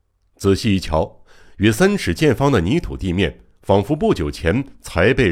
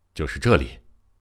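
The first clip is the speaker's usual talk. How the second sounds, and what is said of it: Quiet muttering. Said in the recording (Chinese): “小声嘟囔了一句”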